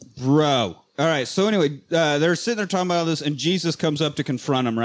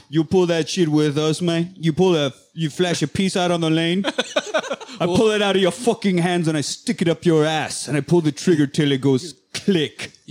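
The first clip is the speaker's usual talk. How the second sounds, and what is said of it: Put-on accent imitating a film character. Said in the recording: “Your accent's pretty good, but it's not Jesus”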